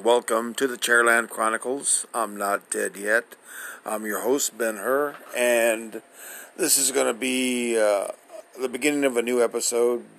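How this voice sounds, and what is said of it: Weak, strained voice. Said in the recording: “my voice sounds rather weak”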